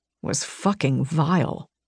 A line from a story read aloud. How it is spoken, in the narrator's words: Rain muttered